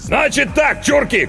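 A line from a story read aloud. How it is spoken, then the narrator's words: Shout. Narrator (Russian): крикнул он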